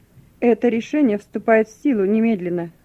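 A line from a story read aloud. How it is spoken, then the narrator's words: Stern, duty officer. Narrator (Russian): строго сказал дежурный офицер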